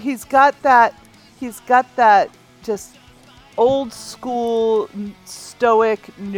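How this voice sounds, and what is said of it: Usual voice. Nothing is said of it.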